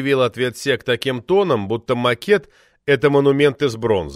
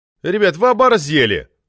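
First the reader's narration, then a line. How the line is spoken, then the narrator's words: Outraged yell. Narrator (Russian): заорал я так, словно подобная история случилась впервые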